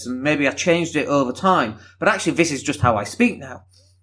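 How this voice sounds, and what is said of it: Broad northern English Leeds accent. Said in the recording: “you don't sound like you're from Leeds... I've got a very broad accent... very northern”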